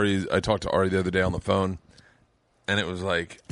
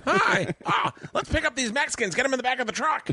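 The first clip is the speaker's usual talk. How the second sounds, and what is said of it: High-pitched imitation of another person. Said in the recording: “Ari's voice, if you listen to it, like, ... 10 years ago. ... High pitched, like a teenage girl.”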